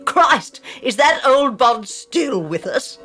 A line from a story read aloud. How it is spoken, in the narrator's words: exclaimed